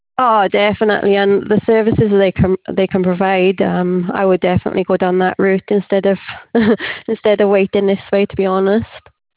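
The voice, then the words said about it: Welsh accent. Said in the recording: “I'm from my accent, I'm Welsh”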